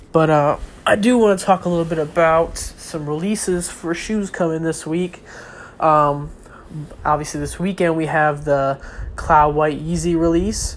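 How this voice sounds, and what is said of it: Stuffy, congested sick-sounding voice. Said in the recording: “excuse me for my voice. I'm getting kind of sick, so I'm a little stuffy, so my voice might not be the greatest.”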